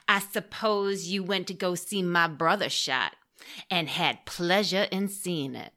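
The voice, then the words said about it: Put-on accent for a quoted line. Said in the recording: “I especially like that accent work.”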